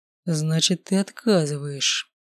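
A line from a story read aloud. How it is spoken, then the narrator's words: Quiet menacing question. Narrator (Russian): угрожающе тихо спросил мой родитель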